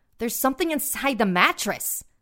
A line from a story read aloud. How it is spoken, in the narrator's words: my mom exclaimed